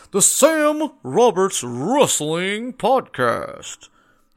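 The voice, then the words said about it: Bad Howard Finkel announcer impression. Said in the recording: “my horrible, horrible Howard Finkel impersonation, which is a longtime announcer for the WWF”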